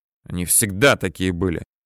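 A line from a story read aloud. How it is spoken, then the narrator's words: Angry speech. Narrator (Russian): зло говорит Карачевский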